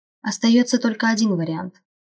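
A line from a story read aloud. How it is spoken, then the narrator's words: Sighing woman. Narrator (Russian): вздохнула женщина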